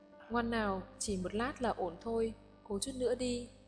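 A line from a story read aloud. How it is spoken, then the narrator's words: Gentle coaxing. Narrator (Vietnamese): dịu dàng dỗ dành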